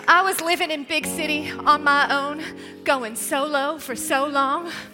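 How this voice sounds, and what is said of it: West Virginia accent. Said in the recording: “no one in West Virginia has the accent. ... But mine is coming back ... I love that accent.”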